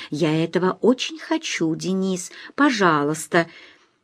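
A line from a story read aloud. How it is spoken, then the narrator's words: Quiet shy plea. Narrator (Russian): тихо, застенчиво просил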